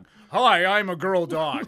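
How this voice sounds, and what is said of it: Deeper voice for a dog character. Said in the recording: “my voice got deeper to do the voice of a girl dog ... do an impression of a girl dog”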